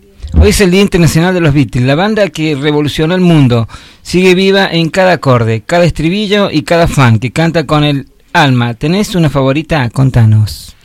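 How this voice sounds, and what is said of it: Radio announcer voice. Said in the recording (Spanish): “Esa voz de locutor de”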